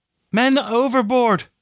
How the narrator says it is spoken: Catrin shouted

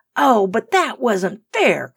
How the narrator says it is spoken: cried Rose

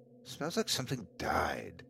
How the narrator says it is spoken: I muttered to myself

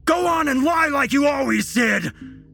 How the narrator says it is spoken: Jesse yelled to his mother

